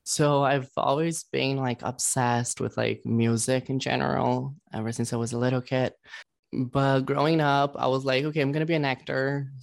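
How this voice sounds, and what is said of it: Foreign accent. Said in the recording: “I could just kind of tell by the accent that you might be maybe from another country”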